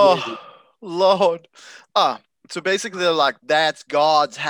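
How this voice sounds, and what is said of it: Usual voice. Nothing is said of it.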